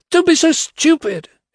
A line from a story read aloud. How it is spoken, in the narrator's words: it snapped